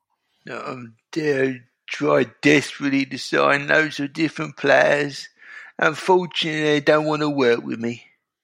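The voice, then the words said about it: Impression of David Sullivan. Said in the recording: “I can't get the David Sullivan impression out of my head... can you do a transfer deadline impression of him saying he tried to sign players but they did not want to come?”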